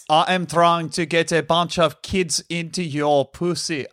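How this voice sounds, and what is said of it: Poor imitation, sounds like Austrian accent. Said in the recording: “Is that how he sounds? ... He's South African. I kind of sound like someone... Someone who's heard of Arnold Schwarzenegger doing an Arnold Schwarzenegger impression. ... You really whiffed it”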